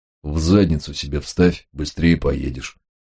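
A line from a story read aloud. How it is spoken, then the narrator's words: Gruff mutter. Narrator (Russian): буркнул Толстый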